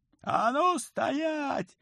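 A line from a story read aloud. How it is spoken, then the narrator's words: Yelling. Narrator (Russian): заорал Колька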